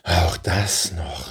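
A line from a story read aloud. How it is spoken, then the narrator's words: Soft sigh. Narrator (German): seufzte er leise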